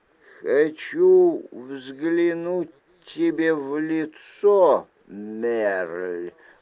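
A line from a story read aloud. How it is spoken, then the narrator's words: Hiss from hiding. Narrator (Russian): прошипело нечто, притаившееся в кустах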